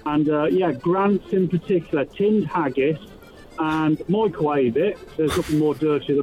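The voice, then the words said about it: English Midlands accent. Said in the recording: “That's not a very Scottish accent ... these are the dulcet tones of a Midlander”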